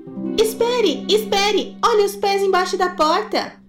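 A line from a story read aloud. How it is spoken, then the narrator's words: Shouting. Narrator (Portuguese): um deles gritou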